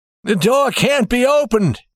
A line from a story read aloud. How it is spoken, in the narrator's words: he cried